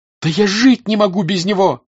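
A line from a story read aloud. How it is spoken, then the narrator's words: Shout. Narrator (Russian): закричала Наташа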